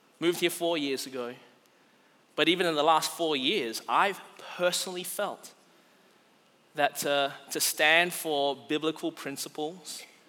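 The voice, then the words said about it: Non-local accent. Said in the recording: “If you couldn't tell from my accent, I wasn't brought up around here.”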